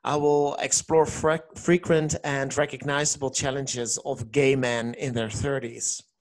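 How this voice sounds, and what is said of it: Dutch accent speaking English. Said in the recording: “I'm from the Netherlands, and that's the reason why you hear an accent.”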